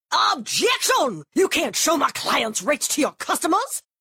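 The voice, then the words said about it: Old-timey Southern lawyer voice. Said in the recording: “my impression of me arguing with an old-timey Southern lawyer in a courtroom”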